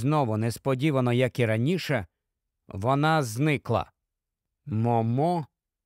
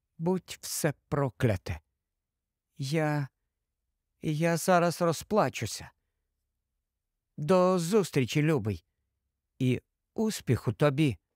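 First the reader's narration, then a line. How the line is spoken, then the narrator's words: Whispered. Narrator (Ukrainian): прошепотіла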